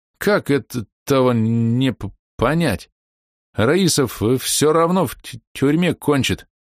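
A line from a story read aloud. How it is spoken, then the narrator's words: Stuttering. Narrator (Russian): Заикаясь, он говорил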